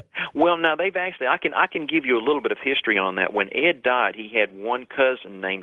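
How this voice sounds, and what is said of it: Southern US swamp accent. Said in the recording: “that's why I have this swamp accent. I'm almost into Georgia where I live.”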